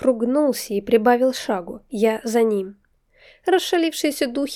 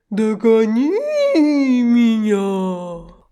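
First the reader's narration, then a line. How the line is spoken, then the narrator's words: Drawn-out spirit reply. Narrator (Russian): протянул дух в ответ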